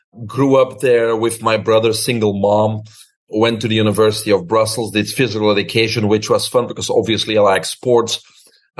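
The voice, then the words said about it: Belgian accent. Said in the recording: “people can hear my accent. And as you said, I'm originally from Belgium.”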